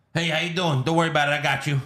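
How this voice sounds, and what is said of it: Put-on New York accent. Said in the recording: “he would have a New York accent ... he's putting on his fake boy voice ... It's kind of New Yorkish.”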